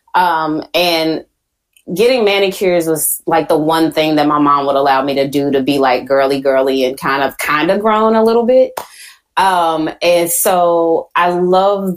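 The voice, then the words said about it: Southern US accent, Texas. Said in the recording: “I'm like this Southern girl, right? I'm from Houston. I'm sure you've heard my accent”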